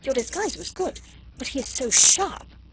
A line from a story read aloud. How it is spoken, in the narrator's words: she gasped excitedly